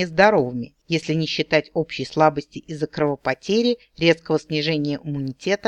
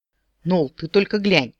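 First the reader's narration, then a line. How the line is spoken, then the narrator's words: Exclamation. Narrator (Russian): воскликнул он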